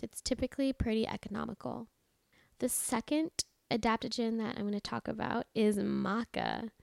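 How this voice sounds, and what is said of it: Raspy voice. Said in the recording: “can you hear my voice? Like I just sound so raspy.”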